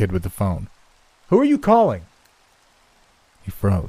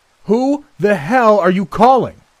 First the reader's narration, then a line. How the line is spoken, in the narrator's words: I roared, hoping to intimidate him